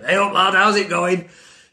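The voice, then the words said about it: Broad Yorkshire accent, deeper voice. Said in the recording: “I've got this Yorkshire accent. ... whenever I talk proper Yorkshire, I always have to go down an octave.”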